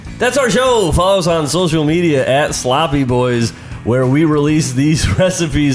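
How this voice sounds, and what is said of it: Altered, stuffy-sounding voice. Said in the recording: “was that your impression of me? ... I think I've got allergies here. That's why I'm going”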